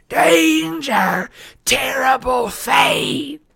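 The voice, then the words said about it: Dry hissing woman's voice. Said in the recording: “she hissed in a dry voice.”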